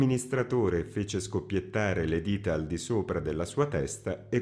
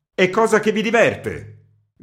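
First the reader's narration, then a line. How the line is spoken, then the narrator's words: Angry shout. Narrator (Italian): gridò il redattore con tono iroso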